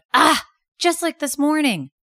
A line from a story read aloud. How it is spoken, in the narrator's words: Jet the rabbit couldn't keep his thoughts inside him, so he cried out loud